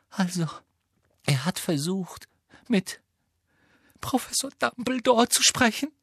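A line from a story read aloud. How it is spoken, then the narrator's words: Choked, muffled voice. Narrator (German): sagte Hermine mit erstickter Stimme in ihre Hände hinein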